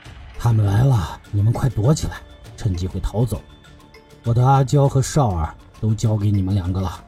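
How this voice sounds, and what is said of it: Speaking in a low, quiet voice. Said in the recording (Chinese): “小声道”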